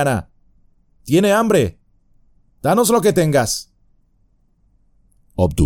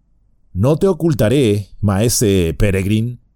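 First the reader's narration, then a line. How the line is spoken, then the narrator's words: Plain. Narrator (Spanish): dijo Beregond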